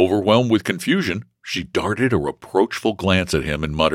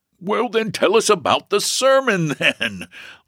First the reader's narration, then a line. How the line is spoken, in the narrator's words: laughed James